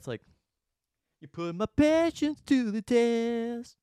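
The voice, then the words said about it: Sung imitation of another person's voice. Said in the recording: “That's my Julian Casablancas impression.”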